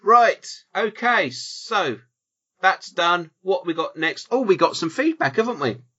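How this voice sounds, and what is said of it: Usual voice. Nothing is said of it.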